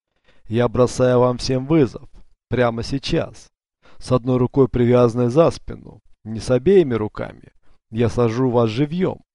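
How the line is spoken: Laughing. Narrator (Russian): Он засмеялся

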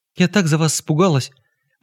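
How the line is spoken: Agitated. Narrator (Russian): взволнованно говорила Маргарита Тихоновна

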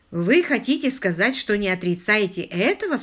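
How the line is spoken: Plain. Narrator (Russian): спросил я

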